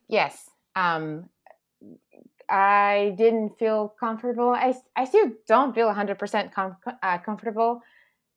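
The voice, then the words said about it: Non-native English accent. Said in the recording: “I'm a lot prouder of my accent now”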